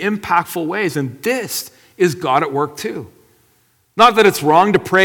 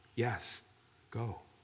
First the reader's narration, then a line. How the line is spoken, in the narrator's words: God quietly whispered